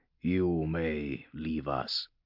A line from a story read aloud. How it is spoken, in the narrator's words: said the Inquisitor, his voice deep and resonant